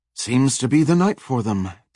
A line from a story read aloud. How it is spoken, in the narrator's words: Tessa said with a sigh